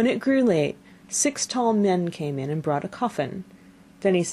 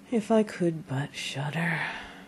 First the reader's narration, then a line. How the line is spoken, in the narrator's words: said quite sadly